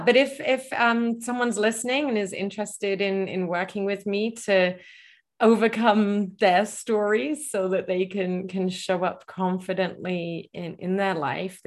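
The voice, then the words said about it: English accent blended from travel. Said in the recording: “your accent ... I'm originally from England, and then my accent, I've traveled a lot ... it's a unique ... accent.”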